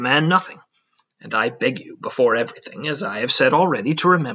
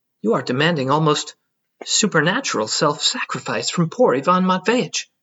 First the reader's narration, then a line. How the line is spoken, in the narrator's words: I cried